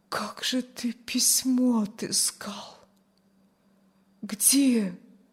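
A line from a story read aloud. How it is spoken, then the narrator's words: Barely audible. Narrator (Russian): Чуть слышно вымолвила Аня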